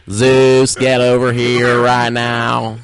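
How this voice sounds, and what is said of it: Put-on Southern dandy accent. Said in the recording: “Does he also have a Southern drawl? ... Now he's become like a southern dandy kind of.”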